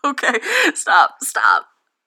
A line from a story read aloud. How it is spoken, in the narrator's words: laughs